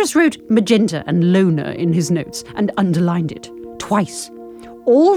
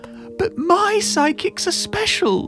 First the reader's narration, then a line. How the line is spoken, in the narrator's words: she said, a note of pride in her wobbly voice